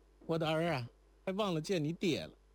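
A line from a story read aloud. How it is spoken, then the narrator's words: Calling out. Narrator (Chinese): 忽然想起了如莲，便叫了声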